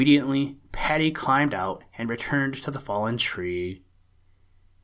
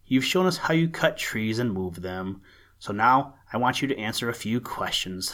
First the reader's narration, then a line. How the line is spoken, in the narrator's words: said she